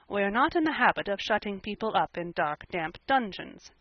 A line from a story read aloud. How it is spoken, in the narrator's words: said Marilla dryly